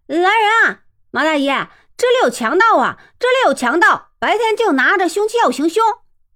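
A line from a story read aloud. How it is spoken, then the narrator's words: Shouting. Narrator (Chinese): 向着罗生处就是一阵喊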